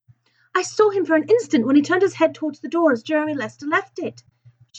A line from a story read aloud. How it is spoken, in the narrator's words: she exclaimed